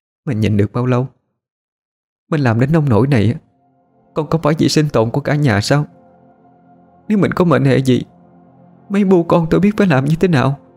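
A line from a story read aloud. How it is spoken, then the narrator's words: Choked, restrained voice. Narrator (Vietnamese): Chị Hậu nghẹn ngào nuốt nước bọt, sau đó mới cố dằn lòng nói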